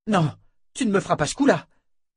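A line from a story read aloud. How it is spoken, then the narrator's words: Exclaiming woman. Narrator (French): s'écria-t-elle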